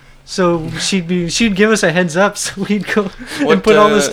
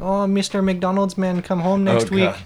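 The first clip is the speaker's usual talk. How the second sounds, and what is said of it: Put-on Norwegian accent. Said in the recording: “Oh, is that a Norwegian accent? ... Yeah”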